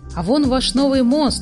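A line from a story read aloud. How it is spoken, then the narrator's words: Exclaiming. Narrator (Russian): воскликнула Фрекин Снорк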